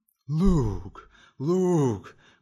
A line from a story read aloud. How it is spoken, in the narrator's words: cried the rose tree